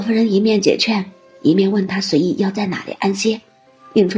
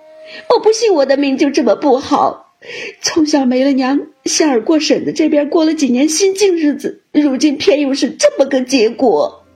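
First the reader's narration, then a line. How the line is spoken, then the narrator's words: Crying. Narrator (Chinese): 迎春哭道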